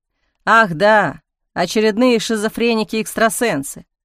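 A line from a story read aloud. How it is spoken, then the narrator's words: Displeased grumble, mocking. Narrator (Russian): недовольно проворчал Леонидов и закончил едва ли не с издевательской насмешкой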